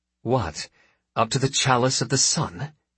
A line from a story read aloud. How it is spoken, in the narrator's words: hisses Mansari